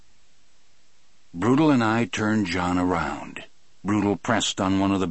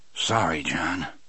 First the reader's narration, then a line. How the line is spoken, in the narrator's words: I murmured